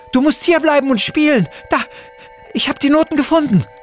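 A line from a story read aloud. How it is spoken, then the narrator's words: Screamed. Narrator (German): schrie Luna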